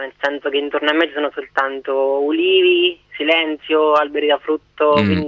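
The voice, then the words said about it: Slight Marche regional Italian accent. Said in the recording (Italian): “se sentiva un pochettino questa accento ... un pochettino sentiva l'accento marchigiano, diciamo centro Adriatico”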